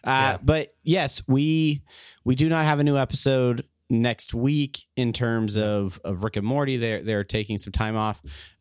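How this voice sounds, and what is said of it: Hoarse, nearly lost voice. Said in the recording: “my voice is about gone”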